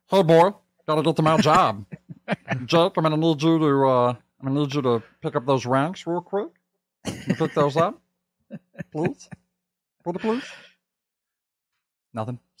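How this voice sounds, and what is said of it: Cartoon character voice impression. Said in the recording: “my number one impression, at least I think in the world, is my Meatwad impression.”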